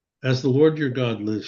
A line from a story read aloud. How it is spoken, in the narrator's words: she replied